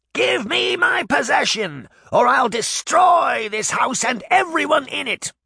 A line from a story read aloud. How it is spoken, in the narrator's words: Baba Yaga screamed